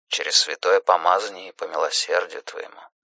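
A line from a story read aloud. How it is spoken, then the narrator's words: Muttering. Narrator (Russian): бормотал священник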